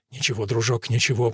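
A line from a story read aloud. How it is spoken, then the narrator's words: Soothing resigned whisper. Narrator (Russian): прошептал Ральф коню в ухо, будучи уверен, что животное обречено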